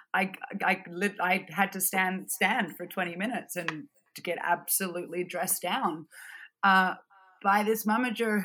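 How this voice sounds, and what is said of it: Non-American accent. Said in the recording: “my accent wasn't American”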